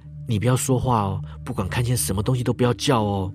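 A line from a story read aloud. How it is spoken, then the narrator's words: Whisper. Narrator (Chinese): 我就悄声对妹妹说了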